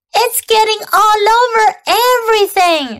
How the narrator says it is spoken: shouted Fern

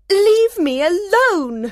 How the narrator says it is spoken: she cried

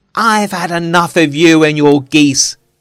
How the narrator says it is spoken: he shouted

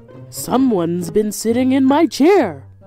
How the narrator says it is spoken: growled the Papa Bear

